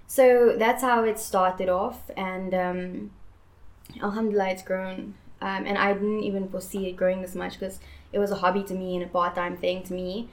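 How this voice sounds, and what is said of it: American English accent. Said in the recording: “where does the American accent comes from?”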